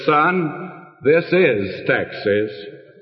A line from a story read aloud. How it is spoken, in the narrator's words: The old-timer said very solemnly